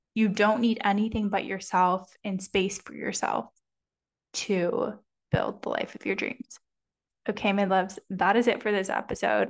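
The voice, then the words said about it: Strained, worn-out voice. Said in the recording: “My voice is killing. I gotta go have some lunch, have some hot tea or something.”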